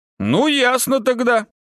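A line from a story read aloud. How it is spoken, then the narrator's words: Wry grunt. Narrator (Russian): хмыкнул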